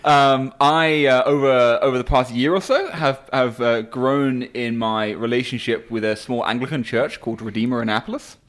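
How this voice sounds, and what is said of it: English accent. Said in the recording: “I have an English accent ... I still have the English accent.”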